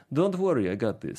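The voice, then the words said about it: Imitates another person's voice, put-on accent. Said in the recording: “That's a really good accent.”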